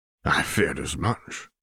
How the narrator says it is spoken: sighed his father

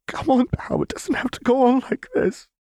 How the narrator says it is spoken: she begged

